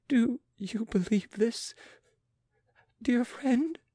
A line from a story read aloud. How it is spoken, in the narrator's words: sobbed Marie Antoinette